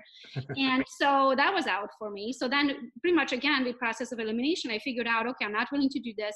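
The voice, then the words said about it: Non-native foreign accent in English. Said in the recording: “i have an accent ... unless I figure out how to lose my accent, which is still here, so it's not going anywhere ... I barely speak English, and I'm not from around here”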